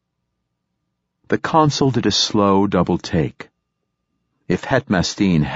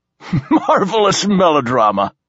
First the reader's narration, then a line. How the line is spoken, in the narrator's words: laughed Silenus